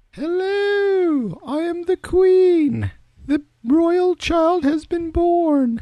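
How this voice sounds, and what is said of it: Impression of the Queen. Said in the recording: “your world famous queen impersonation”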